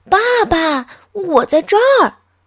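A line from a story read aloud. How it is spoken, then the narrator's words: Child shouting. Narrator (Chinese): 小东尼 大声喊道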